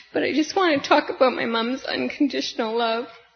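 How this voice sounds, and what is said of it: Emotional, choked-up voice. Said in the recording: “little emotional”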